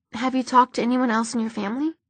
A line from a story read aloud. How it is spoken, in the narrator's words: Maya asked, her voice soft